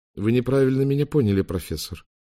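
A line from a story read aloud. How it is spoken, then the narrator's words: Even voice. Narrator (Russian): ровным голосом проговорил Уинстон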